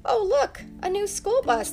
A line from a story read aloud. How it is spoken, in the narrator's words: the mayor exclaimed